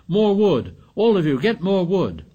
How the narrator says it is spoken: Ralph shouted

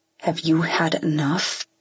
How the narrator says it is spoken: Holder says through gritted teeth

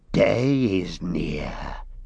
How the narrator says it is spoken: he whispered, as if day was something that might overhear him and spring on him

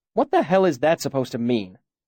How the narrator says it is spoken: Chronicler snapped

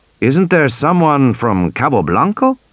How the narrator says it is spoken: Bowman asked

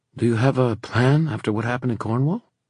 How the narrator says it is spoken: Emma sighed

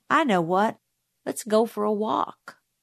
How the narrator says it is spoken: Dill said altogether too casually

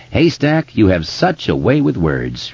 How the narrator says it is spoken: said, laughing and wiping his eyes

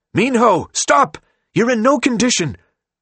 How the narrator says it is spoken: One of the two pursuing nurses shouted

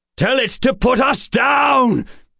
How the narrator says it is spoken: Addison was shouting

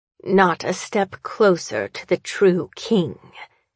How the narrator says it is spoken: she growls

